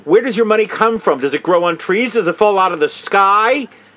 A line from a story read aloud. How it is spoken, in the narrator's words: The officer was yelling at her